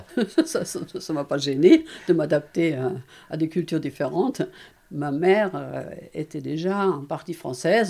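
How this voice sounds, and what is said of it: Slight German accent, like Karl Lagerfeld. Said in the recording (French): “franco-allemande ... ce petit accent un peu à la Karl Langerfeld”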